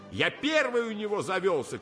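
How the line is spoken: Shouting. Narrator (Russian): кричал вчерашний зок

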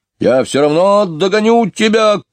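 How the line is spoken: Shouted. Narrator (Russian): кричал он

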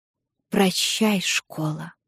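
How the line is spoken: Sad lisp. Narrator (Russian): грустно шепелявит она

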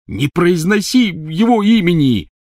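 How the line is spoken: Angry shout from tent. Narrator (Russian): сердито крикнул из палатки Рон

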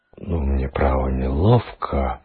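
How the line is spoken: Mumbling. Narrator (Russian): пробормотал помощник начальника полиции

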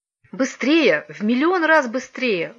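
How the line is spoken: Exclaiming. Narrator (Russian): воскликнула Вероника

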